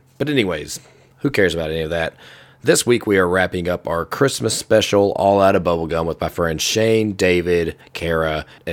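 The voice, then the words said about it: Sick, not fully recovered voice. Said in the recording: “I'm still sick. My voice is still recovering... I just can't get my voice back to the way it was yet”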